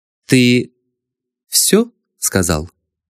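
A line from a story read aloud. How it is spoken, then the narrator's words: Stern question. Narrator (Russian): строго спросила госпожа Бородина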